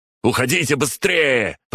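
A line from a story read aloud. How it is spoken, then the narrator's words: Shouting. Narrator (Russian): прокричал Игнат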